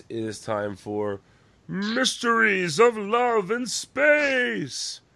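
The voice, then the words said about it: Dramatic Muppet show announcer voice. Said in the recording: “my Pigs in Space impression”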